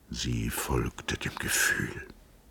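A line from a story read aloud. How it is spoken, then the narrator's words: Murmured through torn lips. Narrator (German): murmelte Peperkorn mit zerrissenen Lippen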